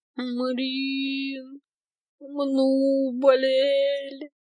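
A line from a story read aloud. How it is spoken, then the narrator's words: Sick moaning. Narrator (Russian): Стонала на утро Аленка, лежа в моей кровати с мокрой холодной тряпкой на лбу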